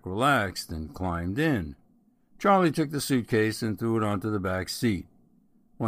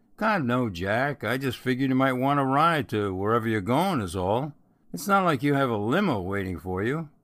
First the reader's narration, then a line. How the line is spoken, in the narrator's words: Charlie laughed and said